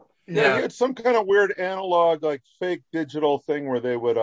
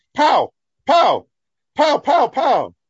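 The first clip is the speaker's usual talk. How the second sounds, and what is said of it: Imitates a child shouting over phone. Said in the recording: “impersonate a kid guest on the Brian Bram show over the phone ... scream pow into the phone”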